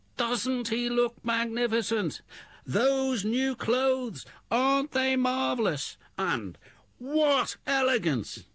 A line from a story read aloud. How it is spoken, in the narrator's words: People in the streets or at the windows called out